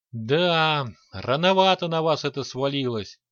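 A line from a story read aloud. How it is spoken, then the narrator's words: Sighing. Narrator (Russian): вздохнул лич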